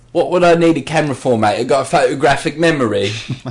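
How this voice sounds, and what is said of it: Attempted British accent impression. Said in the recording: “Fuck, that was Tony Blair there... That a British accent, was it?... It was a go at something, yeah.”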